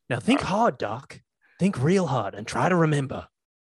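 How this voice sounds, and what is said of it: Imitates a film character's voice. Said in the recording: “do a real impression ... I don't think that was that good”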